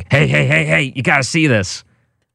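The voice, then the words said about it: Imitates another person's voice. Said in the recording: “that's exactly what you sound like ... Uncanny, my impersonation of you”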